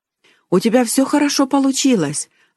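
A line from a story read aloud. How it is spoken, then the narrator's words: Joyful. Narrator (Russian): радостно сказала тетя Ханна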